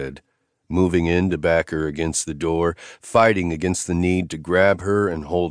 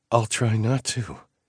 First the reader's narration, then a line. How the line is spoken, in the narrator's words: she promised on a breathy sigh